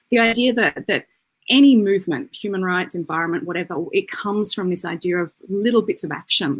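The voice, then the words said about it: New Zealand-Australian accent. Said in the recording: “as you can tell by my accent, I have two homes, two countries of origin, New Zealand and Australia”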